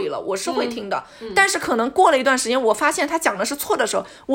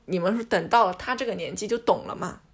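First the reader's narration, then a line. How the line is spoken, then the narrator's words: Plain. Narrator (Chinese): 他是这么讲的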